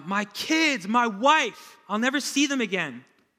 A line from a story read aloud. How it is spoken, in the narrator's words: yell out and cry out